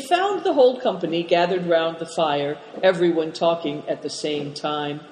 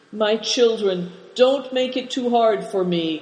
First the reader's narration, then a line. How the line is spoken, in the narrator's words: begged them, looking a picture of grief